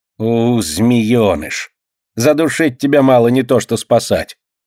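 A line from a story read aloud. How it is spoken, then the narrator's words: Angry hiss. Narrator (Russian): Злобно шипит прачка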